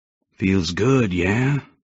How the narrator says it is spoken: He raspingly urged

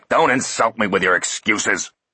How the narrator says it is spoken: roared the commander

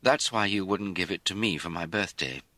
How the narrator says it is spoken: he said sadly

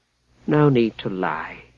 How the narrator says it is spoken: Alfred said, sighing

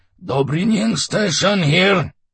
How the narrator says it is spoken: a cracked, agitated voice gasped

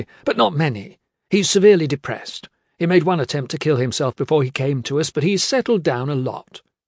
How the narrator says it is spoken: Morris said brightly, then just as brightly

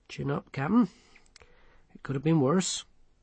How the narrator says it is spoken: Colon stretched uneasily and said

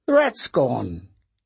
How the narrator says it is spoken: Dressler exclaimed

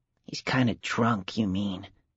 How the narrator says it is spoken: Stephen whispered

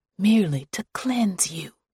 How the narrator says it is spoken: she would whisper

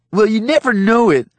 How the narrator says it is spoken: Joel hollered

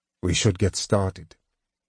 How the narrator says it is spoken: he said coldly

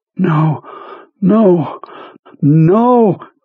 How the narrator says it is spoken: Jonesy panted, hanging onto the knob with all of his strength

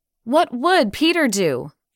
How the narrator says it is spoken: They cried simultaneously

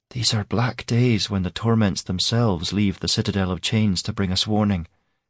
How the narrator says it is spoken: she muttered

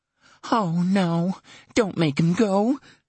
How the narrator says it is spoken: she gasped

